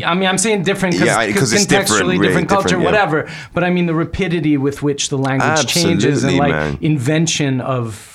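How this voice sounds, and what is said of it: Slight New York accent. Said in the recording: “you got a New York slight to your accent. It's not too gruff, but it's in there ... there was a neutral tone that I couldn't identify as a full bred New Yorker”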